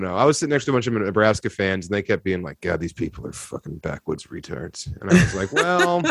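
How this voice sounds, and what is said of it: Usual voice. Nothing is said of it.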